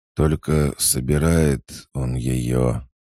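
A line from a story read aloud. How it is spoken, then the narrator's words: Hoarse wheeze, reviving. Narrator (Russian): прохрипел начавший приходить в себя Артеус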